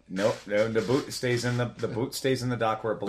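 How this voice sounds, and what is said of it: Northern accent. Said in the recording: “Did you become Canadian? ... I have a northern accent. It's just what I was born with.”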